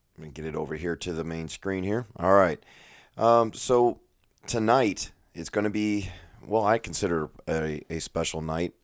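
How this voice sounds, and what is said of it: Strained, partly lost voice. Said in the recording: “As you can probably tell from my voice, I'm still struggling with losing my voice.”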